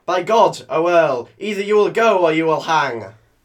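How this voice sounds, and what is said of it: Put-on Yorkshire accent. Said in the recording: “who has spookily acquired a Yorkshire accent”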